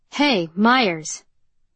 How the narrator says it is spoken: Cord called out from behind her

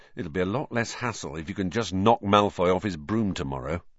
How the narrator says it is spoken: Ron muttered to Harry

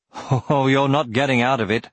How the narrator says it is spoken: laughed Brom

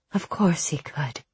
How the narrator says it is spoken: murmured

